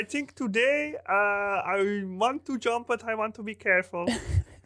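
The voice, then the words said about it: Convincing put-on Austrian accent. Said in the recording (Dutch): “Jouw Oostenrijks accent is spot on.”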